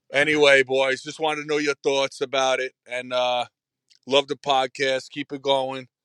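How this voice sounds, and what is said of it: Strong Bronx accent. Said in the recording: “from the Bronx? ... What an accent.”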